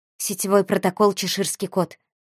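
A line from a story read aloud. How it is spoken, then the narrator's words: Quiet. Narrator (Russian): негромко произнесла Валерия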